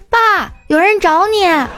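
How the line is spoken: Calling up loudly. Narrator (Chinese): 冲树上喊

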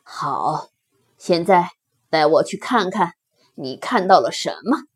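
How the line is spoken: Low timid. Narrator (Chinese): 胆小兔低声胆怯的回答

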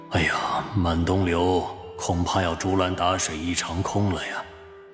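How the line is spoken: Inner sigh. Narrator (Chinese): 范晔心中暗叹

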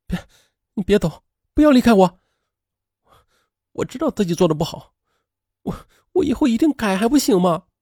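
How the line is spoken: Crying, pleading. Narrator (Chinese): 他竟然哭了起来

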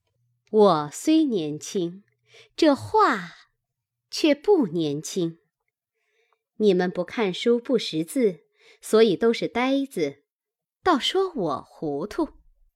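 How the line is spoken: Cold sneer. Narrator (Chinese): 惜春冷笑道

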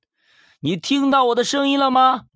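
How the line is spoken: Loud shout. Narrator (Chinese): 驴子……再一次大喊

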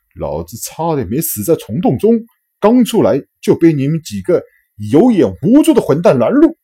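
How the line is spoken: Furious roar over channel. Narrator (Chinese): 公共频道中，霍华德公爵的一声怒吼

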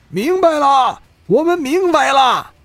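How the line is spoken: Loud crowd response. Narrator (Chinese): 下面六百名士兵大声回应

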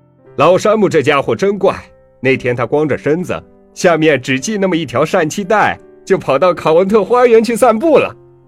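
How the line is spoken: Loud. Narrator (Chinese): 就听一人大声说

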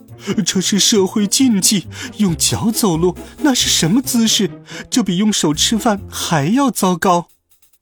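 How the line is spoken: Queen speaking breathlessly. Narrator (Chinese): 王后急促的喘着气说

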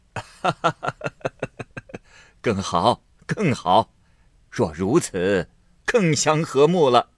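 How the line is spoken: Laughing. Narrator (Chinese): 贾母笑道

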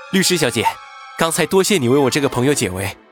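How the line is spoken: Polite, smiling. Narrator (Chinese): 云峰 礼貌的笑道

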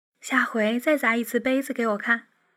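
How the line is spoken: Tipsy, soft, coy. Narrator (Chinese): 婉清带着微醉的迷离……少女似的轻声娇语

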